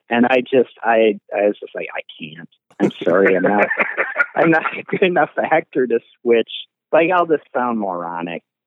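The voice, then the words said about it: Fargo-style Upper Midwest accent. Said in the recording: “less Fargo-y ... this is my accent”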